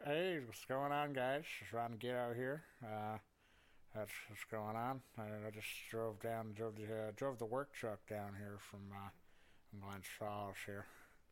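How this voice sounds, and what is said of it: Puts on a character voice. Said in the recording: “Oh, Ron Gitto's here. Would you like to speak to him?”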